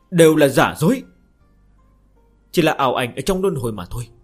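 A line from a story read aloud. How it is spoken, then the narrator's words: Cold, fierce. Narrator (Vietnamese): sắc mặt nàng trở nên dữ tợn, lạnh lùng nói một câu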